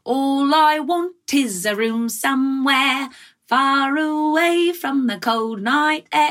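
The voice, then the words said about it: Put-on Cockney accent, sung. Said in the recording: “I did a Cockney accent because it was from My Fair Lady ... I was singing a Cockney accent, like full performance piece ... It doesn't sound faux to me.”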